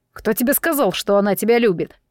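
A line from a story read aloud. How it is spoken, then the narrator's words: Growled. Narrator (Russian): прорычал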